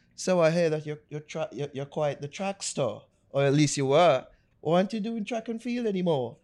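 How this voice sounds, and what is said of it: Put-on English accent. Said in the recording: “I'm having an English accent.”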